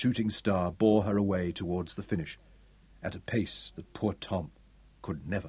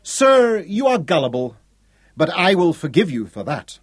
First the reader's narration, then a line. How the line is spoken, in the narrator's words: waved gaily